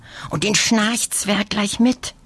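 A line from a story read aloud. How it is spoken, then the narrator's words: Whisper. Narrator (German): flüstert Lina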